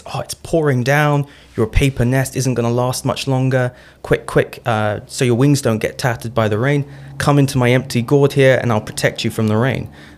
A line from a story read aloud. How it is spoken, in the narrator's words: he shouted to the hornets